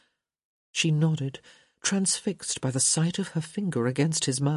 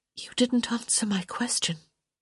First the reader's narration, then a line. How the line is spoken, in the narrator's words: she whispered